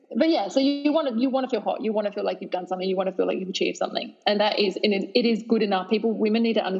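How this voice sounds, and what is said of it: Usual voice. Nothing is said of it.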